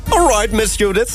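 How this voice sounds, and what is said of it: Put-on British accent. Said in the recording (Dutch): “zo'n Brits accent ... British.”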